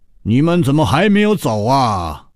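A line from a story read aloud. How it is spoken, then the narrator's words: Booming voice. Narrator (Chinese): 胖主任洪亮的声音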